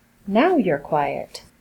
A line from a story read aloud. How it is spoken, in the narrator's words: Louis said, his voice somehow chiding and smug all at once